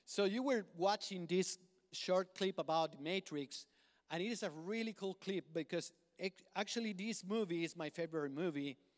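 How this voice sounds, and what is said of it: Speaker's own accent. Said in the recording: “Help my brothers and sisters to understand my accent.”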